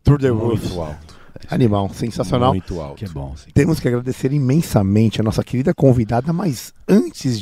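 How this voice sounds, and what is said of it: Very hoarse voice. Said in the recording (Portuguese): “Tô muito rouco, né? Tá foda.”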